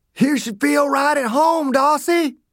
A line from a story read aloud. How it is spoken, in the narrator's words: Dew shouted